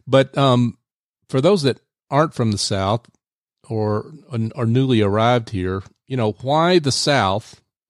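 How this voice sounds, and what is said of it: Southern US accent. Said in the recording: “as you can tell from my accent, I am ... from the South”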